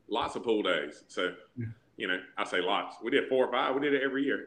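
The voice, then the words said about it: Southern American accent. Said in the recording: “is that your real Southern accent, or are you exaggerating a little bit? ... this is my real voice”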